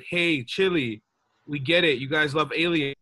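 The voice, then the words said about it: Donald Trump impression. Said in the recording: “I was doing my Donald Trump accent.”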